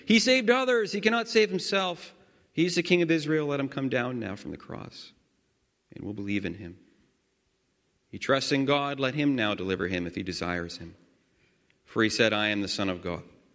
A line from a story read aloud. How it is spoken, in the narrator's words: the chief priests, God's chief priests, and God's scribes and God's elders, they mocked him, saying